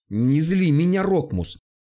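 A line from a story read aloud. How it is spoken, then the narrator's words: Indignant. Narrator (Russian): возмущенно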